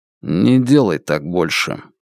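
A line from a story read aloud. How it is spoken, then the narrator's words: Quiet. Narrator (Russian): Лун негромко сказал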